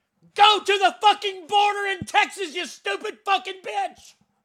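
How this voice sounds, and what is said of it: Yelling angrily. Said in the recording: “I'm yelling.”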